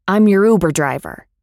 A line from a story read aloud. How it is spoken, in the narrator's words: He basically barks at me